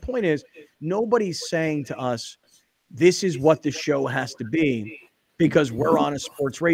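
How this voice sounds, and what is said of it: Usual voice. Nothing is said of it.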